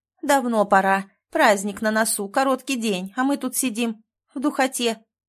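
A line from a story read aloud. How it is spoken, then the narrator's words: Loud. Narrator (Russian): громко сказала уборщица Рашида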